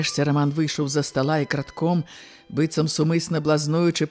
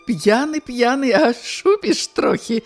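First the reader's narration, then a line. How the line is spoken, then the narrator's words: Laughing woman. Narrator (Belarusian): засмяялася Ганна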